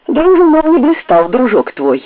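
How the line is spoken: Loud laughter. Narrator (Russian): захохотал Селезнев

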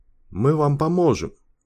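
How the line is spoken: Hoarse rasp. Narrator (Russian): прохрипел он

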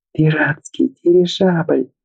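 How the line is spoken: Delighted squeal. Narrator (Russian): взвизгнула Чагуса с необъяснимым восторгом

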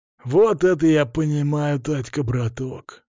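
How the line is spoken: Husky. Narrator (Russian): произнес он с хрипотцой

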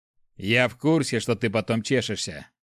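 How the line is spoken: Cleric's snort. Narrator (Russian): хмыкнул клирик

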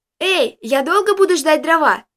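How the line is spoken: Shouted call. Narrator (Russian): крикнула нам Джессика

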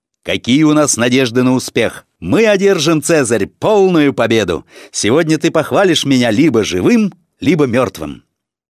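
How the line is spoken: Loud question. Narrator (Russian): Цезарь громко, чтобы слышали другие воины, спросил одного из своих центурионов

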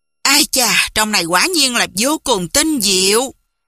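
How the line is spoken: Admiring sigh. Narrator (Vietnamese): bất giác thở dài nói

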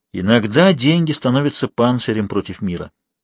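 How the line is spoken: Soft intimate voice. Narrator (Russian): сказал Жак тем тихим голосом, который всегда появлялся у него, когда он делился самым сокровенным

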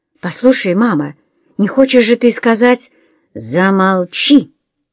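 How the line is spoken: Barked. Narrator (Russian): рявкнула миссис Френч

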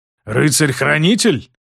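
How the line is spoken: Puzzled growl. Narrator (Russian): прорычал Хорум с непониманием

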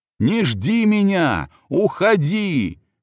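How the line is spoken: Shout. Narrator (Russian): крикнул

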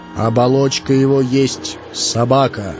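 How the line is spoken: As loud as possible. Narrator (Russian): сказал Ильмаранин как мог громко

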